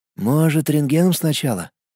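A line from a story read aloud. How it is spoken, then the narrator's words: Whisper. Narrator (Russian): прошептал Влад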